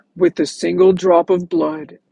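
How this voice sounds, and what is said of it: Deepened put-on voice, impression. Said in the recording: “he sounds like Elizabeth Holmes ... putting on a bit of a voice to make it a little bit deeper ... Let me do an impression.”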